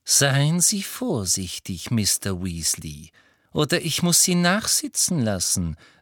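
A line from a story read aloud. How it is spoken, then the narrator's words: Plain. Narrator (German): sagte Umbridge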